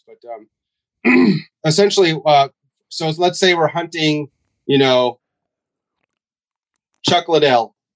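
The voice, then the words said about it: Fading, strained voice. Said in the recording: “Sorry, I keep coughing ... I've been talking all day, so I'm losing my voice.”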